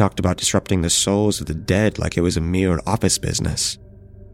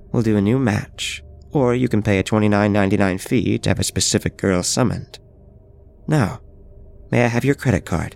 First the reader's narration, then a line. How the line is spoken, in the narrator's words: she chuckled